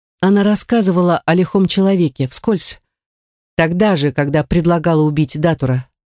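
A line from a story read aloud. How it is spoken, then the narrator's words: Sighing. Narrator (Russian): вздохнула Гортензия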